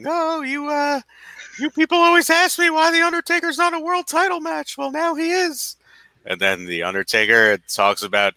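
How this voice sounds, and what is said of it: Wrestling manager character impression. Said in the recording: “That was the best Undertaker impression I've ever heard... He was great on Paul Bearer.”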